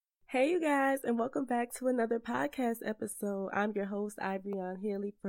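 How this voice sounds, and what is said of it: Slightly off, sick-sounding voice. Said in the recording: “my voice is sounding a little bit different because your girl is just getting over a cold or allergies ... my voice may sound a little weird”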